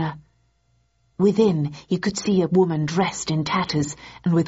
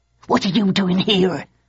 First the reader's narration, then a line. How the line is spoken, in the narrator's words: she hissed